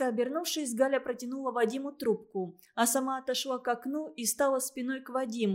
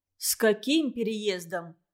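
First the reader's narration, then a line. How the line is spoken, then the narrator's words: Plain. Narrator (Russian): спросил Вадим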